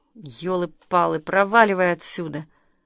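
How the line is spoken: Hoarse wheeze. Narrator (Russian): Павел прохрипел

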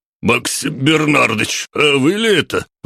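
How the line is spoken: Exclamation. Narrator (Russian): воскликнул он

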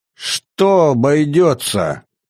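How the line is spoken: Irritated shout. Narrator (Russian): закричал Ибрагим, раздраженный словами советника

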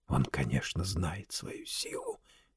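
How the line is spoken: Furious whisper. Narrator (Russian): яростно шептал Варбек

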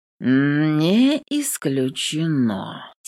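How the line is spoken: Slow drawl. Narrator (Russian): тянет медленно

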